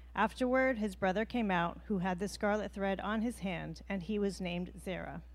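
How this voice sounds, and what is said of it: Canadian accent, pleasant reading voice. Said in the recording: “She was reading it so nice... That Canadian accent can make everything sound good.”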